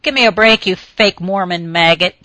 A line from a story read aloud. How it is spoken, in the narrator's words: she snarled back